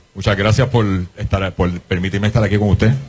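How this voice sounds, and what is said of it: Radio announcer-like voice. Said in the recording (Spanish): “voz de locutor,”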